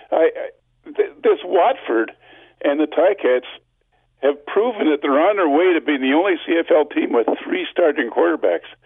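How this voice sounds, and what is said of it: Congested, sick-sounding voice. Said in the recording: “Forgive my voice; I've got a cold.”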